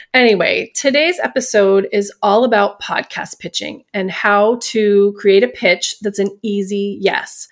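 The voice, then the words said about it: Congested, slightly nasal voice. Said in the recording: “I sound a little nasally today, but the pollen is out in full force and my allergies are kicking my ass”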